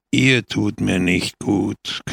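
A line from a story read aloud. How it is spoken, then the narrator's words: Growl. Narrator (German): knurrte Pepone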